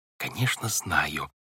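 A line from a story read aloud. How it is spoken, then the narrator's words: Whispered reply. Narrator (Russian): также шепотом ответила Вайолет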